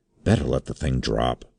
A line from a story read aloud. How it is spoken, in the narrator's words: he whispered